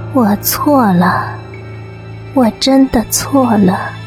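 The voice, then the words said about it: Soft, faint whispering voice. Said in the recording (Chinese): “一个悠悠的声音小声地说”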